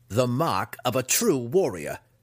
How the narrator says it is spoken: Dinan replied with a wicked laugh

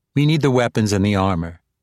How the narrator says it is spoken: Minolin Fay replied

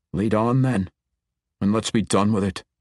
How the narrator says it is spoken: grumbled

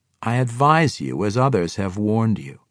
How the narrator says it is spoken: Jarlaxle calmly explained

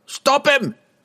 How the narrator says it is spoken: still conscious after he crashed to the floor, and still coherent enough to shout

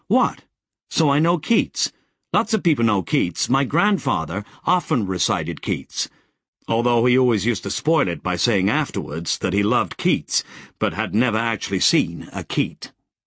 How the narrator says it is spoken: she blushed, and snapped defiantly

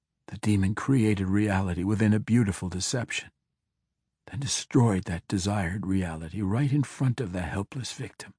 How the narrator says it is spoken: Drizzt whispered

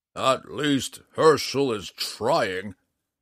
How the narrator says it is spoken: Matthias growled

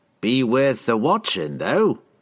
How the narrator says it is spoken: chuckled another

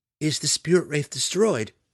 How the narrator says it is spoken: Maya cried in sincere distress

